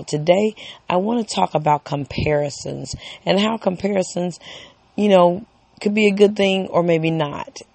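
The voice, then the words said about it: Weak, strained voice. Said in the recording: “I apologize for my voice today... I am constantly screaming sometimes... my voice is a tad bit weak”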